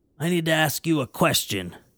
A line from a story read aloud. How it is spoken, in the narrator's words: croaked the clown